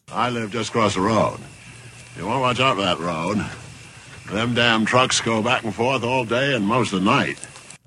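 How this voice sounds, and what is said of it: Strong Maine accent. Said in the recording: “sweet, sweet Maine accent”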